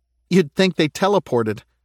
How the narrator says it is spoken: Monica said with a nervous laugh

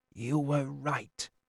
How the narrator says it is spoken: he said into my hair, quietly, calmingly

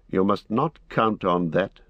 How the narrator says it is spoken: said Strider sharply

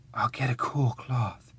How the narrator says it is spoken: whispered

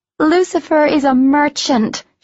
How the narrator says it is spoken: she shouted over the din of their brawl

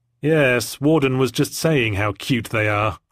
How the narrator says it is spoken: I said, arms folded sulkily

